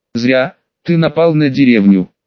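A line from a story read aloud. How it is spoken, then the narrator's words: Scoffing grunt. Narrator (Russian): хмыкнул Хокаге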